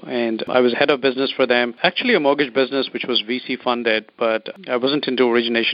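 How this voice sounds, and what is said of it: Indian English accent. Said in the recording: “you have an Indian accent, an East Indian accent.”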